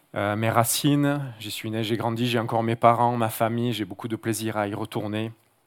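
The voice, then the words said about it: Marseille southern French accent. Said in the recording (French): “mon accent, évidemment, qui traduit que je ne suis pas originaire d'un petit village de la région, ... mais d'une grande ville du sud de la France, Marseille”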